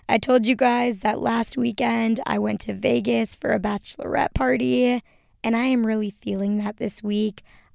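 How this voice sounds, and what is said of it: Tired, hoarse voice. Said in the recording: “you can probably hear from my voice that I am in recovery mode ... I am tired, my voice is hoarse”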